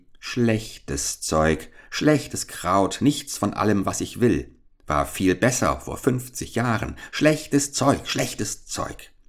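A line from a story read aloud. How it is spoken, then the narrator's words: Muttering. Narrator (German): murmelte sie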